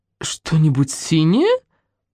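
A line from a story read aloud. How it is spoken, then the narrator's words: Puzzled female voice. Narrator (Russian): недоумевающим тоном произнес женский голос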